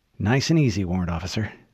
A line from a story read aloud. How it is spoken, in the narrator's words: Lieutenant Haverson whispered